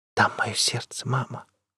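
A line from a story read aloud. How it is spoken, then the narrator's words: Whispered. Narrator (Russian): прошептала Солу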